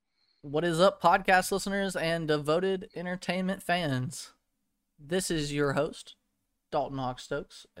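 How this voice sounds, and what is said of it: Slightly congested, stuffy voice. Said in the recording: “I'm getting over a head cold, so my voice is a little different”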